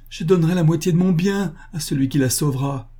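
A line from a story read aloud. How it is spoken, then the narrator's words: Anguished cry. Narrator (French): s'écria le boucher en se tordant les mains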